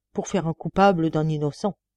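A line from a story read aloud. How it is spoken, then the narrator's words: Grumbling. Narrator (French): grommela-t-il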